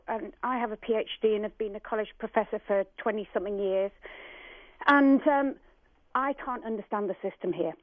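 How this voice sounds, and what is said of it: British accent. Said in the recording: “you can tell from my accent that I'm not from around here. We came over from Britain”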